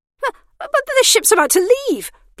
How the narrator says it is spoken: blurted Emmy

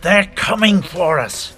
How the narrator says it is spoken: Thalar hissed

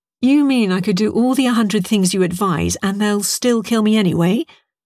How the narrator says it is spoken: said Bernice

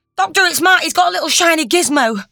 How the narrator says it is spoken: she blurted

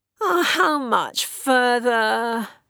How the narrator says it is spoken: Jack moaned

